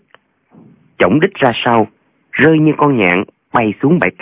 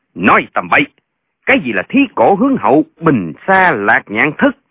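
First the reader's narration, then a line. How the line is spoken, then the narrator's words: Angry shout. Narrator (Vietnamese): Tên La Nhân Kiệt quát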